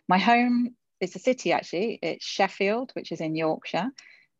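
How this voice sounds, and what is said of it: English accent. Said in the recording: “everyone can probably tell by my accent that I'm from England”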